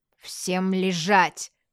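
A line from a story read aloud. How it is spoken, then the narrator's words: Barked command. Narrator (Russian): рявкнул высокий полицейский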